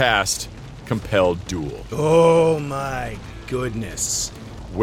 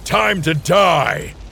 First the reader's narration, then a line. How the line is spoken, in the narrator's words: I yell to this creature